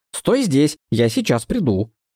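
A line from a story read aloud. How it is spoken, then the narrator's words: Stern. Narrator (Russian): строго добавила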